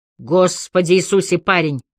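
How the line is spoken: Shouting over shoulder. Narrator (Russian): сказал главный инспектор и крикнул через плечо

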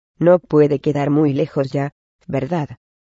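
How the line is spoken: Hoarse voice. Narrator (Spanish): dijo Ron, con la voz ronca

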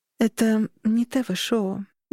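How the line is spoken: Soft. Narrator (Russian): мягко сказала я

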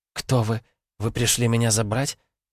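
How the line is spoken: Quiet whisper. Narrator (Russian): тихо шептала она

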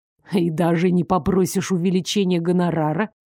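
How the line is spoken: Surprised snort. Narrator (Russian): Элмер удивленно хмыкнул

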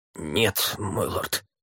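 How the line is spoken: Croaking. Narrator (Russian): прокаркал Сварга

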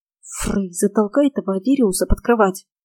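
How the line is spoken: Hissing. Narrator (Russian): прошипела я

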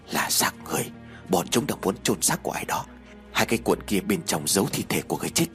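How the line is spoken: Quiet reply. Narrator (Vietnamese): Đồng nghiệp của cô khẽ đáp

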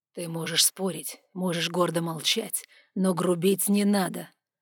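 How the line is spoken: Quiet menacing voice. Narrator (Russian): вдруг угрожающе тихо проговорил Сандро из-за спины подруги

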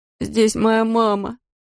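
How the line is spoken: Whining. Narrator (Russian): заскулил Эдди Рейд

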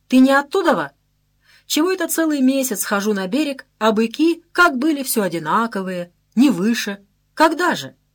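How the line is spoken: Laughing. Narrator (Russian): Посмеялся

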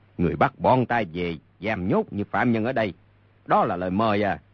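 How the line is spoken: Angry. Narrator (Vietnamese): Mục Dịch tức giận nói

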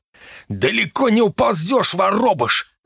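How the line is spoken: Barked. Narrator (Russian): рявкнул Дарт

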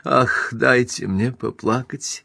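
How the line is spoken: Flustered mutter. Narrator (Russian): в смятении пробормотала наконец

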